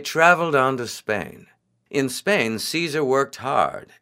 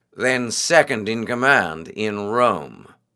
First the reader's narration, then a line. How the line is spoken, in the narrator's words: snapped